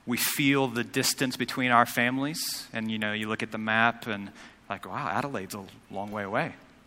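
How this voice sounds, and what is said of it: Non-local accent. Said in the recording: “as my accent gives way, I'm not from Adelaide.”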